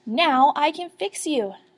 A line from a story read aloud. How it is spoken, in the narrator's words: shouted Dottie